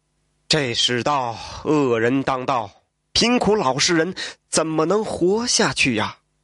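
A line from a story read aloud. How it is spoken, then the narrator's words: Sighing. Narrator (Chinese): 蒲松龄是叹道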